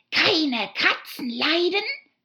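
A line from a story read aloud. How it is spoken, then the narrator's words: Shrill passionate mouse shriek. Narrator (German): schrie die Maus mit schriller, leidenschaftlicher Stimme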